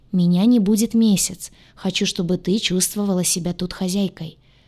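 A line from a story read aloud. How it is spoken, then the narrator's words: Speaking calmly. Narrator (Russian): спокойно говорил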